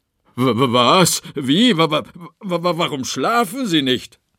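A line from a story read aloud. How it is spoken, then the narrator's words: Stammering. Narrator (German): stotterte Günther May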